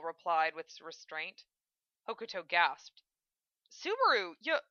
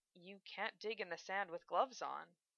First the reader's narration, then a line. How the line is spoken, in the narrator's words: he said quietly